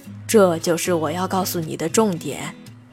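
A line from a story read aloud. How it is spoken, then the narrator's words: Sighing. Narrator (Chinese): 方丈叹一口气道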